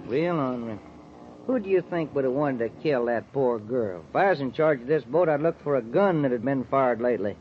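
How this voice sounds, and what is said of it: Texan accent. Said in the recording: “do you ever get tired of that accent? ... I just talk the way folks talk in Texas ... That's Texas talk.”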